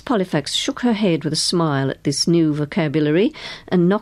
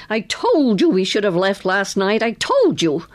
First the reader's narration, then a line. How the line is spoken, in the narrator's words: a faded blonde woman who shouted at him